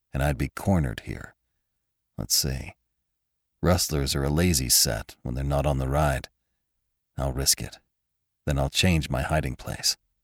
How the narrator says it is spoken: he muttered

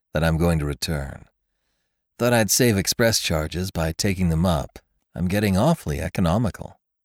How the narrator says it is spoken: said Jimmy coolly

